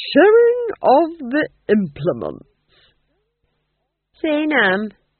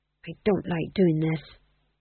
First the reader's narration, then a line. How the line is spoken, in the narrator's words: he murmured under his breath